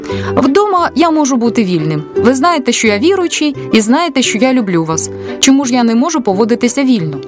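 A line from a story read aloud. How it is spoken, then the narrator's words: Shouting. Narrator (Ukrainian): він крикнув до Наді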